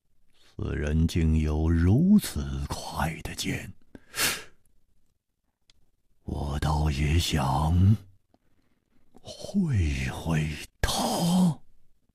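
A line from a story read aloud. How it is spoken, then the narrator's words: Excited murmur. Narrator (Chinese): 薛一人的脸上 好像泛起了一种兴奋的红光，喃喃地说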